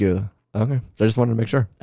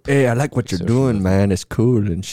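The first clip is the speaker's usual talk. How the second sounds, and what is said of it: Put-on Chicano accent. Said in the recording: “Can I just start doing the accent now since it's Cinco de Mayo?”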